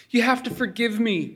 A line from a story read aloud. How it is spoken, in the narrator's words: said in a pleading voice